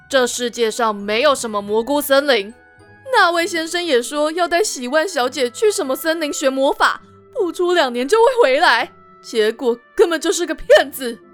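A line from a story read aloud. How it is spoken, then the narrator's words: Sneering. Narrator (Chinese): 瑞刚冷笑着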